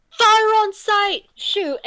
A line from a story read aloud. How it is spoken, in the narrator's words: Sawatis is gonna shout